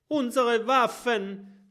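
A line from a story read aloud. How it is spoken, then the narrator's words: Shout. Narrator (German): schreit Norbert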